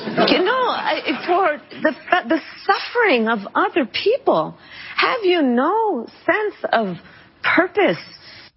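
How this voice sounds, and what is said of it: Kamala Harris using odd Celtic-sounding accent. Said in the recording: “New Kamala Harris accent has just dropped ... How many different accents? ... Is she the Celtic warrior now?”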